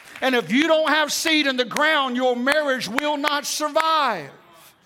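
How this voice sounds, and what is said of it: Yelling, loud forceful preaching. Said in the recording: “I'm yelling at you”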